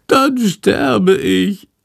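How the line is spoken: Wailing. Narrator (German): jammert Chandor

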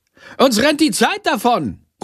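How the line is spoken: Calling out. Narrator (German): ruft sie

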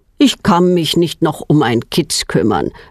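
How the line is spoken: Plain. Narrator (German): sagt er

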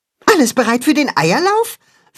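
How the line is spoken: Excited question. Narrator (German): fragt Max aufgeregt

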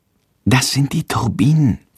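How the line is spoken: Whisper. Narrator (German): flüstert Jendrik

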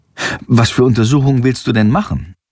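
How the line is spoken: Plain question. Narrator (German): fragt er Jendrik

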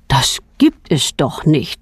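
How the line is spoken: Plain. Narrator (German): sagt Petronellas Vater

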